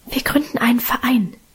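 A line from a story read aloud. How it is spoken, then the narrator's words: Whispered. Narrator (German): flüsterte Minchen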